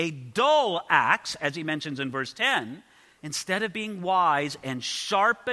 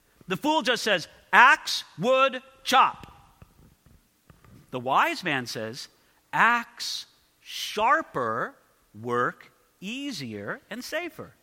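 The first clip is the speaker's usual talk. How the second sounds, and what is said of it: Caveman-style broken speech. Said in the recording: “talking like a caveman”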